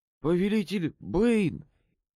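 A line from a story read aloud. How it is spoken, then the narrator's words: Breathless exhale. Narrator (Russian): выдохнул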